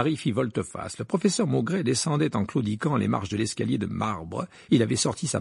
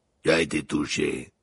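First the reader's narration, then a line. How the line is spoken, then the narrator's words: Growled. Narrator (French): grogna Maugrey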